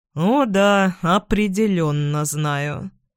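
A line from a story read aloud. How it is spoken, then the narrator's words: Gloomy male confirmation. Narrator (Russian): мрачно подтверждает этот мужчина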